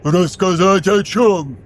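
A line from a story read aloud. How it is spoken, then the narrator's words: Loud roar. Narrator (Russian): взревел Вайросиан, не сознавая, насколько громко звучит его голос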